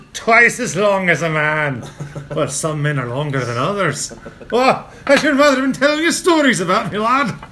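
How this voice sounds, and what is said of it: Put-on Scottish accent. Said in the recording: “I'm talking about the accent. ... No, the accent was ... inflection. ... I have a much better actual Scottish thing.”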